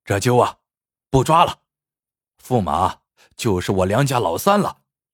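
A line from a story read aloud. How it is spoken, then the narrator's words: Sighing. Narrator (Chinese): 叹道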